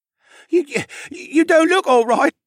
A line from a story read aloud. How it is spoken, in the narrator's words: he stuttered out